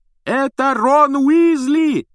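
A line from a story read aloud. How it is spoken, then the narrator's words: Loud yelling over phone. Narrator (Russian): пуще прежнего орала трубка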